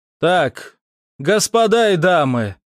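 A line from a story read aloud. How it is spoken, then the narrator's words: Loud. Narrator (Russian): громко произнес я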